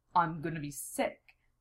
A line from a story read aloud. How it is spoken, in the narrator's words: muttered